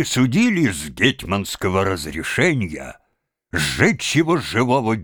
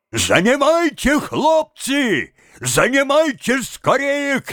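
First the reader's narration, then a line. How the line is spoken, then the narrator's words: Shouting. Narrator (Russian): кричал он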